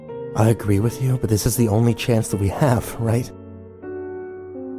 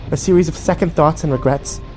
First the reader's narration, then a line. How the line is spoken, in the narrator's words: She snapped